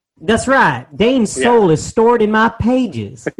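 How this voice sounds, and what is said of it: Old-time Mississippi Southern accent. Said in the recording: “my diary is from Mississippi, circa 1950, as you can tell by the accent”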